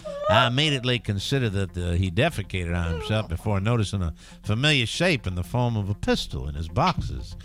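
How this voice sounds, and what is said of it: Put-on Southern American accent. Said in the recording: “I'll put a southern accent.”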